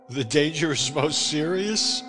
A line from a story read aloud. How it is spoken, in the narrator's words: I laughed